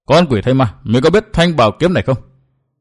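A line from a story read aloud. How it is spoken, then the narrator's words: Deep-voiced demanding shout. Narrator (Vietnamese): chàng trầm giọng quát hỏi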